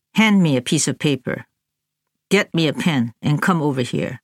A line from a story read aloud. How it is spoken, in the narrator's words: Ye Ye said softly